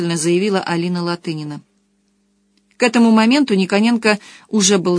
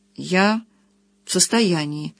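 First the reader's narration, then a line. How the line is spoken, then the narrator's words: Hesitant. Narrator (Russian): выговорил тот неуверенно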